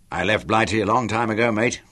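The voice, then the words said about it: Broad London accent. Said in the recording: “You are a London boy, aren't you?" He'd picked up the accent ... letting it come out broad”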